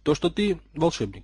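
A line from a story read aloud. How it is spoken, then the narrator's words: Calm reply. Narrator (Russian): спокойно произнес в ответ Поттер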